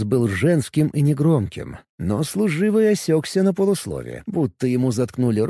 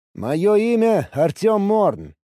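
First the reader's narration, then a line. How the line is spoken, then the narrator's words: Loud and clear. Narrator (Russian): сказал я громко и четко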